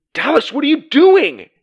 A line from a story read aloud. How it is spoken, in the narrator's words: he yelled